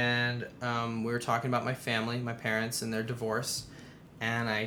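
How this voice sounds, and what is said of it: Usual voice. Nothing is said of it.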